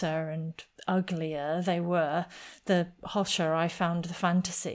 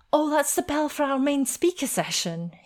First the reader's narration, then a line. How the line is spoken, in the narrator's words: he exclaimed